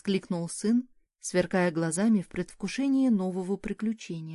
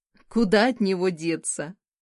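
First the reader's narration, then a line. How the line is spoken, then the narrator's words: Amused snort. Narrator (Russian): хмыкнула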